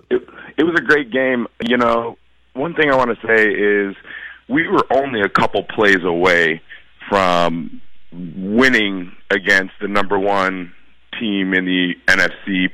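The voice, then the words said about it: Strained, worn-out voice. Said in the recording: “my voice is a little shot from hooting and hollering”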